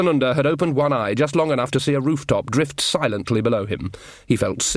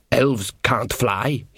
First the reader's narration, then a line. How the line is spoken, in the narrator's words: muttered